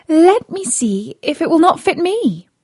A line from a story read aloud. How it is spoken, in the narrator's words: Cinderella said to them laughing